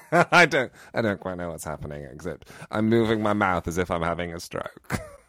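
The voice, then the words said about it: Put-on posh cut-glass English accent. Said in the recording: “I now seem to be apologising in some kind of cut glass accent that I don't quite recognise as being my own ... Cut glass, yeah. That's how I describe this kind of voice”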